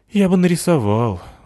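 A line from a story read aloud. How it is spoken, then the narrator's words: Boy sighing. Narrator (Russian): вздохнул мальчик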